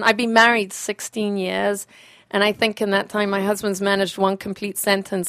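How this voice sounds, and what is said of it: Southern African accent. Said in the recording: “this peculiar accent is that I'm from Southern Africa”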